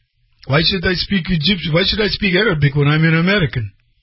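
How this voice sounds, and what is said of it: Imitated Egyptian Arabic accent. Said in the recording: “He's totally Egyptian with a very, you know, Arabic accent.”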